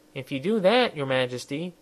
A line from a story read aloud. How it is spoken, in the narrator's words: he said